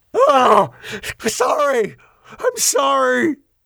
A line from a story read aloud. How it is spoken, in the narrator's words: He screamed